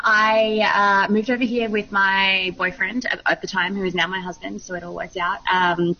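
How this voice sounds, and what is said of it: Australian accent. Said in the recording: “is not an American accent. That's an Australian accent.”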